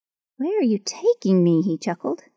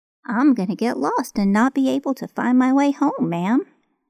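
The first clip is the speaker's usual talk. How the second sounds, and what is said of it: Voice of a lost little boy. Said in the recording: “he laughed, trying to speak in his best impression of a lost little boy”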